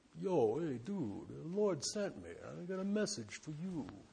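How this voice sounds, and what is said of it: Put-on Bronx accent. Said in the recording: “Imagine an angel with a Bronx accent.”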